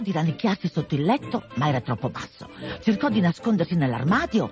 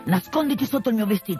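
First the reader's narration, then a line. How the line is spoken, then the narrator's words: Plain. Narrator (Italian): disse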